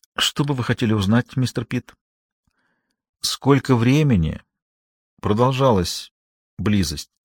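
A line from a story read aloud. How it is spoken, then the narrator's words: Very quiet. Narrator (Russian): сказал он очень тихо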